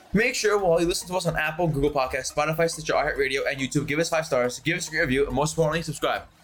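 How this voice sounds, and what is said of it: Reading very fast. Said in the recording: “why were you reading it so fast?”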